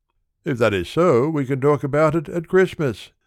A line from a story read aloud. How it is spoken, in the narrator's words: said Nanni